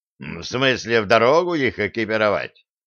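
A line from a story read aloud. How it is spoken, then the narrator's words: Dwarf's incredulous snort. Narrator (Russian): недоверчиво хмыкнул гном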